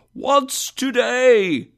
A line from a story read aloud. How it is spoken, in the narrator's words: cried Scrooge, calling down to a boy in the street